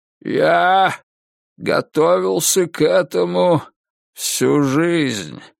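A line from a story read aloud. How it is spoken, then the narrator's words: Creaky old granite voice. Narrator (Russian): проговорил он постарчески скрипучим гранитным голосом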